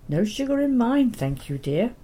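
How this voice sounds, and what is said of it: Strong Welsh accent. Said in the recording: “She would call out in a strong Welsh accent,”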